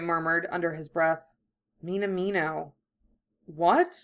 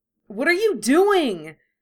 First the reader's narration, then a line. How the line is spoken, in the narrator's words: He yelled, trying and failing to pull loose